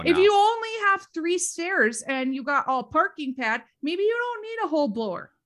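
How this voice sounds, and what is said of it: Minnesota accent. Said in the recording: “we got to talk about your accent ... I really honed my Minnesota accent”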